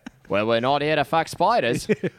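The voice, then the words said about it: Attempted Australian accent, sounds British. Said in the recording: “I don't know how to do an Australian accent. ... That was British.”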